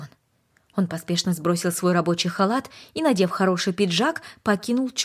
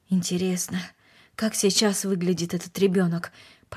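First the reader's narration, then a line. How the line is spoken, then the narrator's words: Mutter. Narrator (Russian): пробормотал он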